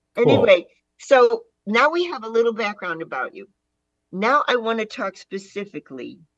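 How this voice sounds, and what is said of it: Chicago-area American accent. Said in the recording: “I was born and raised in the Chicago area. So as you can hear in my accent, I'm sure.”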